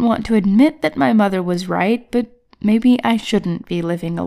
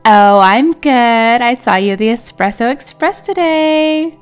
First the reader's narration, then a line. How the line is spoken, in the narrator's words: she said in a playful tone